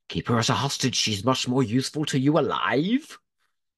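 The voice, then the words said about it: Put-on Welsh accent. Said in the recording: “Sorry, forgive me. Anyone Welsh listening, I'm so sorry.”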